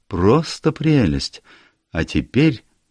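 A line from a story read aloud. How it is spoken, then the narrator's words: Sad. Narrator (Russian): грустно добавила она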